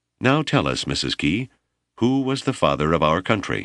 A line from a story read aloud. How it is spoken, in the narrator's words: Brimstead, who was proving to be quite a ham ... asked in a sweetly condescending voice